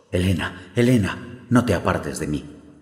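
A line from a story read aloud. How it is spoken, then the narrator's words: Desperate exclamation. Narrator (Spanish): exclamó el joven desesperadamente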